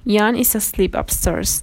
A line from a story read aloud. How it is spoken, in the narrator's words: I said